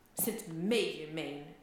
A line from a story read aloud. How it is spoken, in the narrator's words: Jon Snow spat bitterly